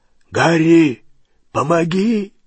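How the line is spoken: Hoarse call. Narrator (Russian): хрипло позвал Хагрид

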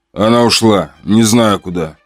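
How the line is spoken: Calm. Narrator (Russian): спокойно сказал я

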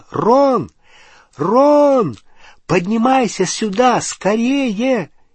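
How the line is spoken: Shouting. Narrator (Russian): крикнула

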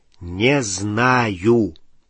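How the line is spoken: Drawling. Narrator (Russian): протянул Рон

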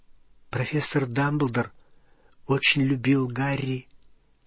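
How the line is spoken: Quiet. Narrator (Russian): тихо сказала Гермиона

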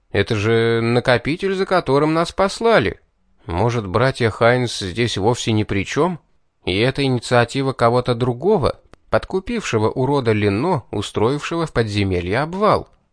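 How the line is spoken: Uncertain suggestion. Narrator (Russian): неуверенно предположил я

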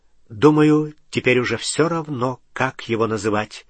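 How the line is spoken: Plain. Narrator (Russian): ответил Гарри Палумни

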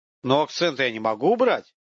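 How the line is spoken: Plain reply. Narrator (Russian): ответил студент

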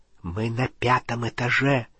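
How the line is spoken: Whisper. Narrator (Russian): прошептал он

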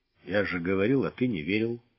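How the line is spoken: Grumbled. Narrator (Russian): буркнул Чекин

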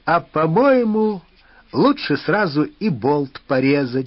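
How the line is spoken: Laughing. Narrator (Russian): засмеялся цыган

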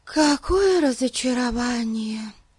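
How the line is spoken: Sighed. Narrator (Russian): вздохнула Дейзи

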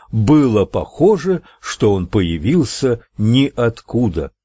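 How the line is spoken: Plain. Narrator (Russian): говорит очевидец трагедии

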